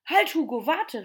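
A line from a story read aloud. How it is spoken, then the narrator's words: Call. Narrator (German): rief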